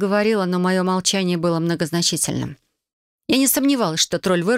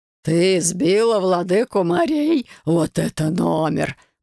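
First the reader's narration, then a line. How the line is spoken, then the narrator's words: Laughing. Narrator (Russian): продолжал смеяться тролль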